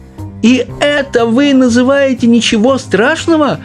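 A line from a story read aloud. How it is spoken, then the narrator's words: Distressed shout. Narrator (Russian): закричала бедная миссис Бакет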